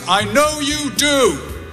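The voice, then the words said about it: Loud quoted voice. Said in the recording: “in a loud voice”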